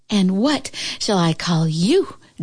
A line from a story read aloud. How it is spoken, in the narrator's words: Juliet panted